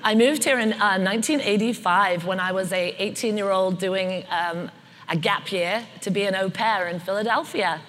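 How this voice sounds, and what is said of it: British accent. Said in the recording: “I noticed you have an accent. ... Born and raised in the UK.”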